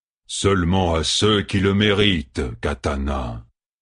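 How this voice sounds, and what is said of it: Drawling Seanchan accent. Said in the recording (French): “l'accent traînant des Seanchaniens”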